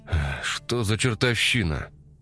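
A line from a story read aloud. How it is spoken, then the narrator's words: Breathless exhale. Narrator (Russian): выдохнул Громов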